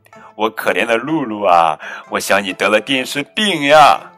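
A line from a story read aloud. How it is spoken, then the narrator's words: Laughing. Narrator (Chinese): 她笑着说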